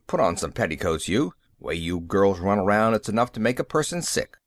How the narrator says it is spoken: they would growl

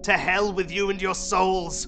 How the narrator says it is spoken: he shouted

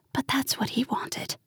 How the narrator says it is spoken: She froze, whispering

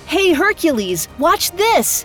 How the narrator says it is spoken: Aeolus yelled

